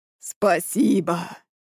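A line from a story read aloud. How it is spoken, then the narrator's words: Inhuman voice. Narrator (Russian): Нечеловеческим голосом ответили мне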